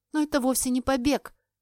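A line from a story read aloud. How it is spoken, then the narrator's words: Desperate exclamation. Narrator (Russian): воскликнула в отчаянии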